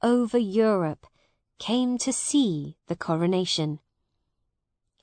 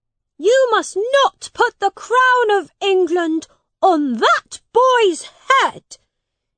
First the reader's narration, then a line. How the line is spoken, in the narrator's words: he shouted